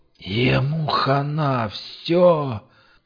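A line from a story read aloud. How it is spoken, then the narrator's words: Strained hoarse rasp. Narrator (Russian): Сорванным хрипом остановил остряк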